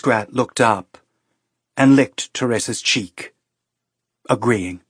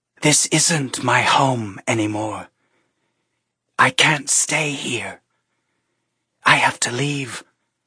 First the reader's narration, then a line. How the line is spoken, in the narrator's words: she spoke, she whispered